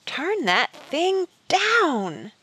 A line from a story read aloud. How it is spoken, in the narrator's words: Stanton shrieked